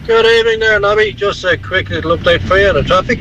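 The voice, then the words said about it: Radio traffic announcer style voice. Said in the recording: “He's got a good traffic announcer voice.”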